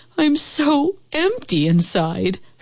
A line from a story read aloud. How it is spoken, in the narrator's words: sobbed the old house